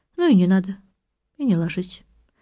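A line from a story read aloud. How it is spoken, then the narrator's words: Calm speech. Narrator (Russian): спокойно произносит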